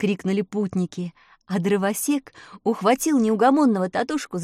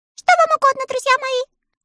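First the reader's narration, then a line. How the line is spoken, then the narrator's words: Thin little voice. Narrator (Russian): спросила королева Рамина своим тоненьким голоском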